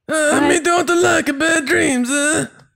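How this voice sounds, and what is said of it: Deep Watto character voice. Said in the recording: “do your best Watto impression ... I'm not deep enough ... Deep voice, right.”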